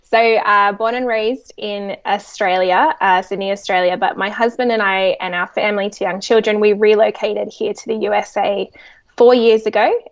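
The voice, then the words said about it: Australian accent. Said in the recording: “you can probably hear from my accent, I'm Australian”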